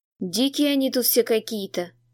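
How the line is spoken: Heavy sigh. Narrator (Russian): тяжело вздохнул Волседал

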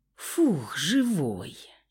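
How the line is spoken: Relieved exhale. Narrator (Russian): Я облегченно выдохнула

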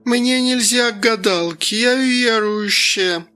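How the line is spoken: Drunken young woman's voice. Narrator (Russian): Пьяным голосом произнесла одна из девиц

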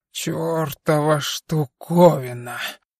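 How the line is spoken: Hoarse over speakers. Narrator (Russian): прохрипел из динамиков Дон

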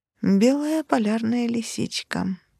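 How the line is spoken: Sad statement. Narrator (Russian): констатировала печально

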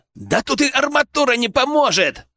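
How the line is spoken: Barked shout. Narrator (Russian): гаркнул Саня

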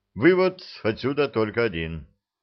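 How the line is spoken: Gloomy. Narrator (Russian): мрачно сказал Ланник

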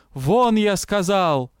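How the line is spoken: Yelling. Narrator (Russian): повторно заорал Тесма

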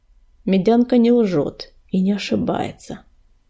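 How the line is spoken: Grim statement. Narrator (Russian): мрачно сказал Огнезвезд

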